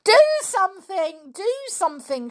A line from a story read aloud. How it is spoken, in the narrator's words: shouted George, struggling to get away from her father's hold